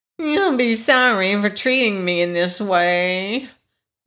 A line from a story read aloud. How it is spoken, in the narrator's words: whined the wheeler